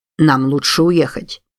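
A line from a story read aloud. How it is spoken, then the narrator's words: Plain. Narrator (Russian): сказал Колхун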